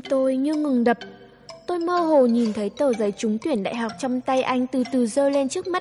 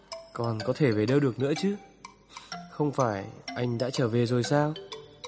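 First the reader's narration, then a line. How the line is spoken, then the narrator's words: Stunned, lowered voice. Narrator (Vietnamese): Anh sững người, hạ giọng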